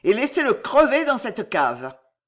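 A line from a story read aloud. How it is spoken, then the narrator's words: Furious yelling. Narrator (French): vociféra Henri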